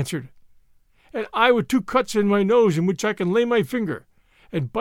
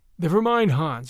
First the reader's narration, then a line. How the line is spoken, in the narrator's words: I said